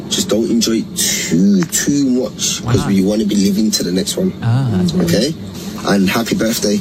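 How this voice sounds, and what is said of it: British, possibly Scottish or Liverpool, accent. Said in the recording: “I like that accent... Is he Scottish?... He sounds like British... Liverpool, maybe?”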